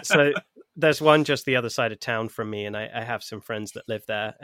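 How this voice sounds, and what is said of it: Non-Californian accent. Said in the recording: “I actually live in California. Despite the accent.”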